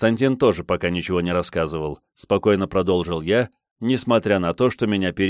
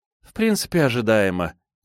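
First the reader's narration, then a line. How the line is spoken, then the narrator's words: Heavy-sighing young woman. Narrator (Russian): тяжело вздохнула девушка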